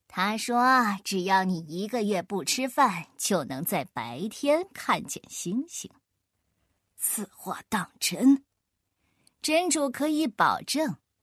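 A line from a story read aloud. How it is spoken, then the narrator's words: Sneering. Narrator (Chinese): 阿凡提……冷笑一声……然后说道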